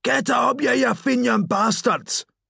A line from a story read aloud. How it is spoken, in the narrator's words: the Protestants, after the pubs had opened, they screamed